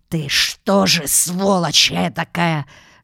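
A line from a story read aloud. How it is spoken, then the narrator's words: Hissing officer. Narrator (Russian): шипел унтер в лицо Павлу Ивановичу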